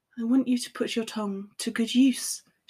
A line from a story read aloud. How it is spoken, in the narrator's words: murmurs